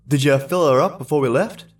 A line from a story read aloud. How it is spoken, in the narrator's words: asked Andy